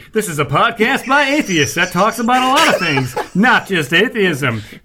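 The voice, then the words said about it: Announcer-style radio voice. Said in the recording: “It only took you 99 episodes to come up with a radio voice.”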